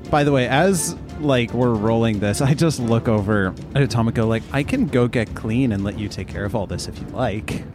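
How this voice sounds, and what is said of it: Sarcastic tone. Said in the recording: “I mean, I'm being sarcastic.”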